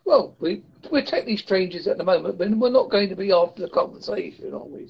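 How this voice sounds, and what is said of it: Essex and Devon English accent. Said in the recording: “my accent is Essex Devonish. So my accent might be a bit stronger than the most average English.”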